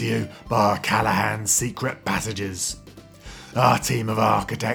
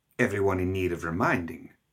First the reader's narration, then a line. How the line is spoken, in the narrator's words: Gretchen said flatly